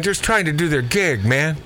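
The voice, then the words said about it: Laid-back 70s stoner-style voice. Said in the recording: “talk like a guy from the 70s, man. Am I Shaggy from Scooby-Doo all of a sudden?”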